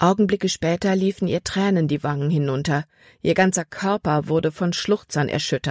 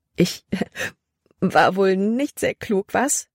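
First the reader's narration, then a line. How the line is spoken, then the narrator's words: Loud laughing. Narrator (German): lachte sie laut heraus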